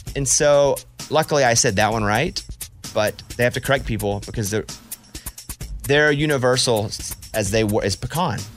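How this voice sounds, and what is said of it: Thick regional accent. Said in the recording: “Your accent's too thick”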